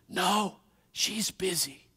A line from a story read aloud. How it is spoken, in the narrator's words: The little boy whispered